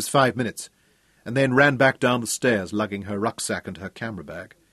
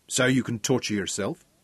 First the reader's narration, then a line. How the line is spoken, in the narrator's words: Her voice firmed